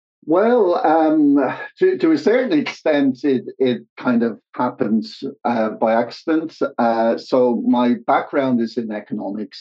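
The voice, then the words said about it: Irish accent. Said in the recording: “I, I, studied in, in Dublin, Ireland, as you can probably tell from uh, the accent.”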